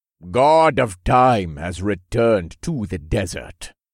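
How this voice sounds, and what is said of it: Speaks with a heavy accent. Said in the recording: “one man said in a heavy accent,”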